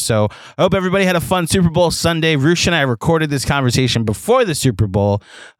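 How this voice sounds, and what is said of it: Hoarse, strained voice. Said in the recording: “My voice is a little shot”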